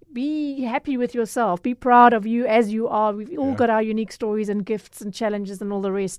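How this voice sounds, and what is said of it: South African Durban accent. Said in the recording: “your Durban accent”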